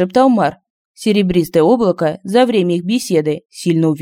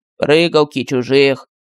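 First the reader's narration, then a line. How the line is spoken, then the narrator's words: Flat colorless voice. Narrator (Russian): бесцветным голосом сказал Мар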